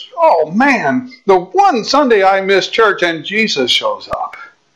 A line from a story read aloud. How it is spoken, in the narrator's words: The little boy says